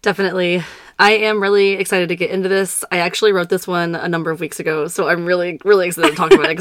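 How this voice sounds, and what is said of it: Voice weakened from illness. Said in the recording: “my voice is not 100% ... Give my voice a rest”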